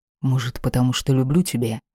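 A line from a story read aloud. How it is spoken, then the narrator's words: Quiet and very serious. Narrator (Russian): произнес тихо и очень серьезно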